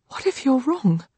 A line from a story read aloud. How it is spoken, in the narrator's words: Lily whispers